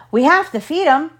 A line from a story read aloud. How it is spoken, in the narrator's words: Long John said